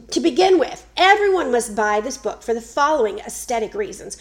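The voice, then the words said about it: Put-on Southern American accent. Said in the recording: “I'm going to say this in a Southern accent.”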